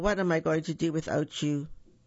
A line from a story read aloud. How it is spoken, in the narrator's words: The Bear yawned